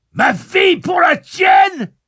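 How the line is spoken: Screaming. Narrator (French): hurla l'homme de l'alcôve

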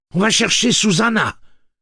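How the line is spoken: Exclaimed. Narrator (French): s'écria Eddie

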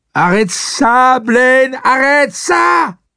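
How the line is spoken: Shouting at top of voice. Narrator (French): Susanna criait à tue-tête

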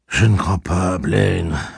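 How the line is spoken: Exhausted tone. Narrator (French): répondit Roland d'un ton épuisé

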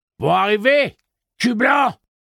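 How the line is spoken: Calling out. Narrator (French): lui cria Dette

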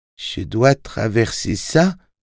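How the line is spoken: Small timid voice. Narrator (French): demanda Tim d'une petite voix

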